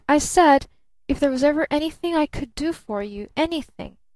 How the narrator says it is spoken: grinned Barton more cheerfully

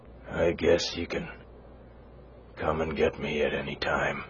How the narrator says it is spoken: he mumbled

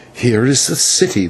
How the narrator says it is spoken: whispered the señor to me

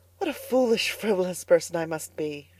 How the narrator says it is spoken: she sighed

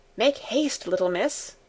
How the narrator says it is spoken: said Sebastian again

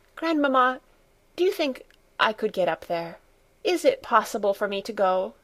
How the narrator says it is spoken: she asked eagerly

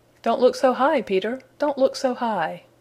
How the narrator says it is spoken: said the voice with a chuckle

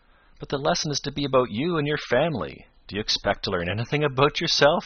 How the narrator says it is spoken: he demanded, and chuckled as if he thought that was a great joke

